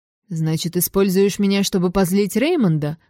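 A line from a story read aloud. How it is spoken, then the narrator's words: Smirking snort. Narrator (Russian): хмыкнул Аштон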